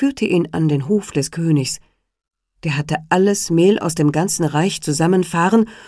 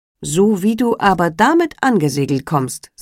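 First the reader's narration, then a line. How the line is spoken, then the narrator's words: Plain. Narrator (German): sagte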